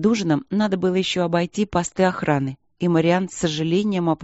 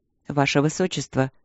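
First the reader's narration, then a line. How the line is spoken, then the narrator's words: Quiet. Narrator (Russian): сказал он тихо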